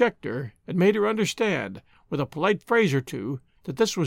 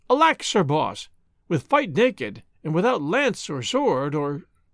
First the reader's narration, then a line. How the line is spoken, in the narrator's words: The queen exclaimed